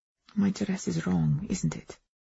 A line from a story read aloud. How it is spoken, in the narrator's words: whispered